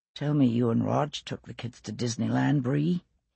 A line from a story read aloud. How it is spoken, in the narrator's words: he murmured